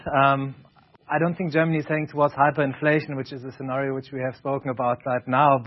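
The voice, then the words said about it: German accent in English. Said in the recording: “my German accent”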